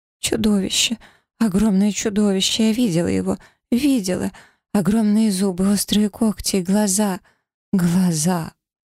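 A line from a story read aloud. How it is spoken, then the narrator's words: Fading, trembling, suppressed sobs. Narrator (Russian): Ее голос становился все тише, дрожа от сдерживаемых рыданий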